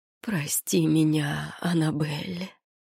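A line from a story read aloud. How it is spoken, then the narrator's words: Hoarse, pained rasp. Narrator (Russian): прохрипел, выгибаясь в болезненной судороге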